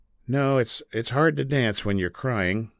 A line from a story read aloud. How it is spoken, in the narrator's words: DeGeneres replied